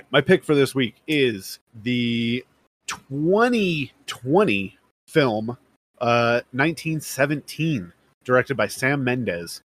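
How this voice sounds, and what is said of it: Slightly hoarse, strained voice. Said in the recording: “I got in late last night from a concert, so I'm losing my voice a little.”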